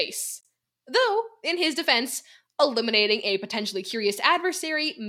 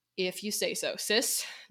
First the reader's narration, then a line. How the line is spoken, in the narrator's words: Dekai muttered